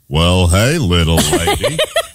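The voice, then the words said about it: Imitates a cowboy movie star's voice. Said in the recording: “Can you do an impression of him ... It's the cowboy ... She got it based on my impression.”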